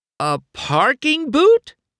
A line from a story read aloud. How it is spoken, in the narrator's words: cried in horror